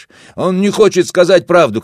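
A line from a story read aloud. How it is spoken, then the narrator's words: Shouting. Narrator (Russian): кричал Васо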